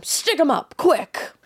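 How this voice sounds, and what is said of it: Imitates another person's voice. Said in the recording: “She did like a Mae West style. ... That was my best shirt impression.”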